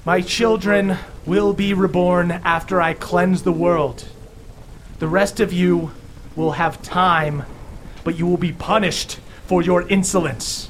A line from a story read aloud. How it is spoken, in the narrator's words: Theala continues with a booming voice